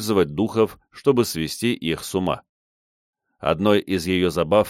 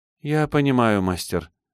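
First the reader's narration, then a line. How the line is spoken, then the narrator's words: Sad sigh. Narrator (Russian): грустно вздохнула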